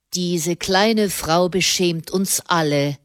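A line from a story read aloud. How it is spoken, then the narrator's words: Plain. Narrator (German): sagte er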